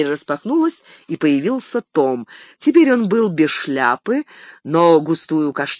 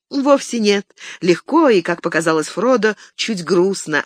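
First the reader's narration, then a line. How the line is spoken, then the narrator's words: Plain. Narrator (Russian): ответила Златиника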